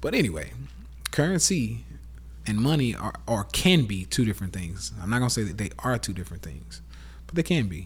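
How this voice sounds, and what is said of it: Southern US accent. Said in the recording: “southern accent”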